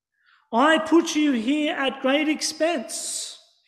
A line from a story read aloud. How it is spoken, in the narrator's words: shouted